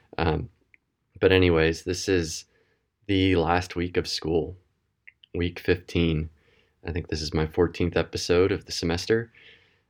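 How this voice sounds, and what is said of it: Tired-sounding voice. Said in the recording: “maybe you can tell by my voice over the past couple weeks ... I am tired”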